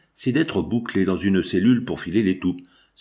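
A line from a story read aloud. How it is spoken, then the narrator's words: Grumbling. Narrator (French): grommela le charretier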